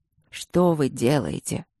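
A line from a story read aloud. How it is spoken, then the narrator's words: Tired question. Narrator (Russian): устало поинтересовался Мариан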